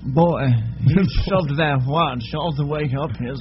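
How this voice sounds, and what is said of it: Imitates another person's voice. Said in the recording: “Here's my Christopher Walken. ... is he French at the end?”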